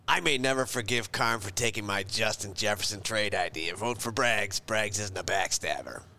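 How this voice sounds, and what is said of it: Gravelly longtime-smoker voice. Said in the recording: “Why did ... just turn into a guy who's been smoking for ... 50 ... years? ... I don't have a good ... impression”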